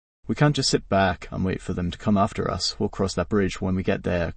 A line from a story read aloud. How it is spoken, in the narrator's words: Carl replied grimly